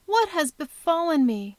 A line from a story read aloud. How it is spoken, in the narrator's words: murmured Beatrice, with a low moan out of her heart